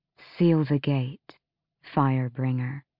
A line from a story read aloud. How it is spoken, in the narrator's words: Mala said softly